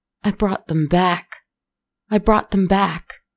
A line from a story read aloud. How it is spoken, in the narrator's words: he cried